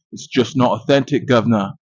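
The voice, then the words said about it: Poor put-on British accent. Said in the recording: “sorry to British people for butchering your accents”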